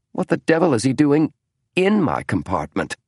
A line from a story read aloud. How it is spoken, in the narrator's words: snapped James